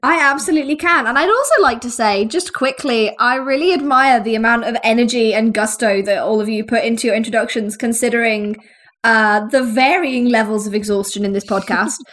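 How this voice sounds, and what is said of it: Croaky, ill-sounding voice. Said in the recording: “my voice gets a little bit croaky and gross ... I've had the vid”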